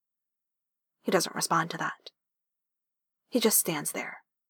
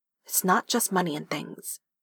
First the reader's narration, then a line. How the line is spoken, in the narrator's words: says firmly